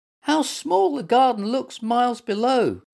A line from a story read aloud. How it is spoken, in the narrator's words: squeaked Little Mutt